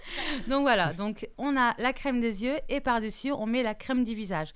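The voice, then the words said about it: Speaks with an accent. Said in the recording (French): “t'as un accent aussi”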